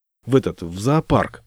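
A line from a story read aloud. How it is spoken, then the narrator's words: Gruff mutter. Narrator (Russian): буркнул я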